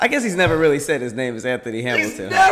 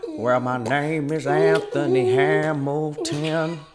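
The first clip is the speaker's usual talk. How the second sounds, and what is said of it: Imitates another person's voice. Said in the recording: “Why did you do that voice? ... You can just use your voice, you know.”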